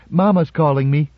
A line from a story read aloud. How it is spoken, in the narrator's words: said Gloria, not quite happily